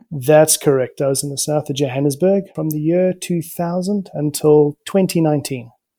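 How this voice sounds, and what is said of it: Mixed English and South African accent. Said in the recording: “English from England, but I grew up most of my life in South Africa. So I have a bit of a mixed accent. A lot of people might hear the South African accent in me”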